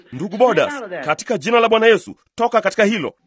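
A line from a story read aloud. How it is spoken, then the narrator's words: Raised voice, loud. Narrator (Swahili): Nikapaza sauti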